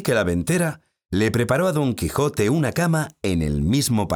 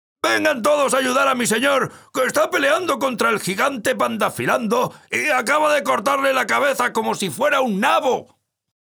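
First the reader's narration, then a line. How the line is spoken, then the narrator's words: Shouting. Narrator (Spanish): Sancho salió del cuarto de Don Quijote diciendo a gritos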